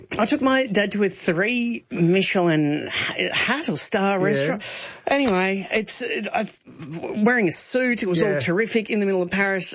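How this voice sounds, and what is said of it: Thick Australian accent. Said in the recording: “with our thick Australian accents.”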